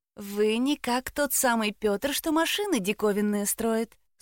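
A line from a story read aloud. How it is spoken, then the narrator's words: Thin little voice. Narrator (Russian): спросила она тоненьким голоском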